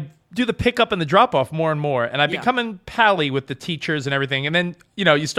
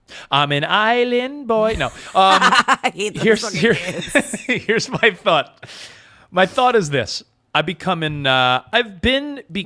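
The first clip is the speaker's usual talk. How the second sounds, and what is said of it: Put-on island accent. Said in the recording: “Why are you talking in that accent now?”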